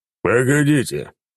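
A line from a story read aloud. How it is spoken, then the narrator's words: Deep bass voice. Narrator (Russian): пробасил он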